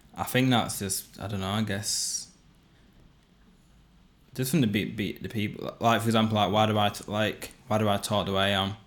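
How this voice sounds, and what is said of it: Regional accent, not London. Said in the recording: “we both talk in this accent ... we don't talk like we're from London ... That's why we got this certain accent”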